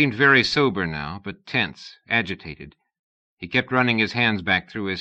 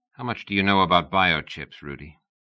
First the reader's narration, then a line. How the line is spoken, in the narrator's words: Rudy grunted